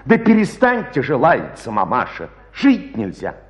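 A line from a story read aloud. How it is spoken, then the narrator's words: Indignant declaration. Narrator (Russian): Викторушка возмущенно провозгласил с палати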